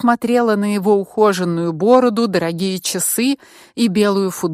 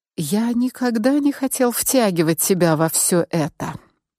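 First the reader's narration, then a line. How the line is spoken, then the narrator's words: Whispered in the ear. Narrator (Russian): прошептал Мик мне на ухо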